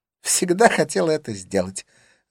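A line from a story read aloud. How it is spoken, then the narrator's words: Joyful declaration. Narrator (Russian): заявила радостно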